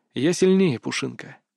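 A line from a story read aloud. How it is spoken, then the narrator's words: Soft whisper. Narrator (Russian): мягко прошептал Крис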